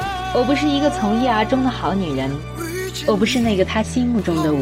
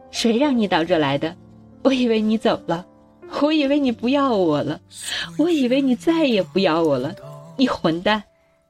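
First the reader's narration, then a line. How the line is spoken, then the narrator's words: Crying. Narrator (Chinese): 我哭着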